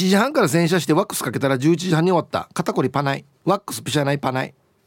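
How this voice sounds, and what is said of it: Usual voice. Nothing is said of it.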